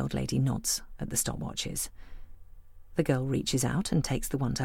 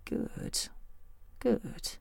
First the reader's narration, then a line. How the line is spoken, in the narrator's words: She mutters thoughtfully